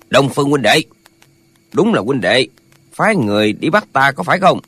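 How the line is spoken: Hoarse yet powerful voice. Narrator (Vietnamese): Giọng nói khàn khàn nhưng nội lực sung mãn

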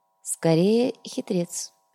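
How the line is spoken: Quiet. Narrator (Russian): негромко произнес комиссар

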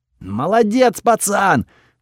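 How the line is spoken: Yelling. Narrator (Russian): заорал Готфред

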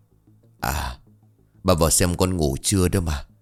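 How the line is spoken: Light, casual. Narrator (Vietnamese): Ông Mười mỉm cười buông ra một câu nhẹ tênh

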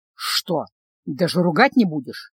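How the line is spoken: Hissed in pain. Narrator (Russian): прошипел принц, втягивая воздух на особенно широкой ране

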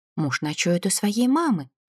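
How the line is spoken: Plain. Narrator (Russian): ответила я

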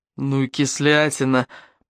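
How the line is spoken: Muttered. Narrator (Russian): пробормотал блондин

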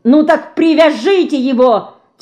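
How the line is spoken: Frightened detective shouting. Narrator (Russian): кричал перепуганный сыщик

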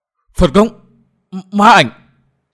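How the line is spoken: Anguished screams in unison. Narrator (Vietnamese): Cả năm gã cơ hồ đồng thời rú lên thê thiết

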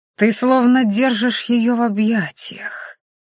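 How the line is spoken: Provocative drawl. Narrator (Russian): провокационно протянул оборотень

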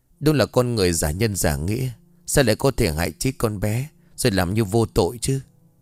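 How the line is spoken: Sighing. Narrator (Vietnamese): Trinh thở dài

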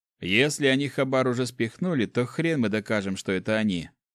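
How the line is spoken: Grumble. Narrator (Russian): проворчал Макс

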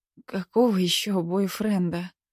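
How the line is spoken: Hoarse, strained question. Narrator (Russian): хрипло спросила я, чувствуя, что каждое слово словно проворачивается через мясорубку, прежде чем попадает мне на язык

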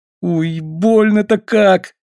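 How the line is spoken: Sobbing. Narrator (Russian): всхлипнул Тимми

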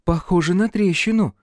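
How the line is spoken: Uncertain. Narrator (Russian): неуверенно произнесла она

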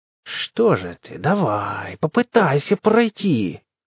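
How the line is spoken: Defiant hiss. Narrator (Russian): с вызовом зашипела

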